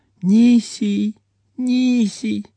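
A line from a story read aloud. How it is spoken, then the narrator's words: Sleepy babble. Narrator (Russian): Она сонно улыбнулась брату и пролепетала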